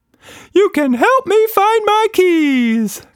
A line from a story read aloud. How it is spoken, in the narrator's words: Quatsch Monster cried enthusiastically